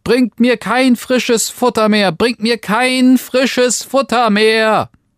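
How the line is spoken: Frightened, shouting loudly. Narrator (German): rief er endlich in der Angst, so laut er konnte

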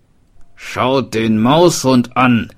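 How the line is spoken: Smith calling out. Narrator (German): rief der Schmied

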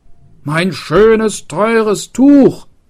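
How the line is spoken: Calling out. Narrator (German): rief der Schildbürger

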